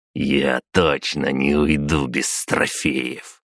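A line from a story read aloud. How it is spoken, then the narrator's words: Through clenched teeth. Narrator (Russian): процедил он сквозь зубы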